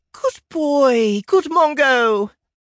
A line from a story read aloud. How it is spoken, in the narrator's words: Donut cried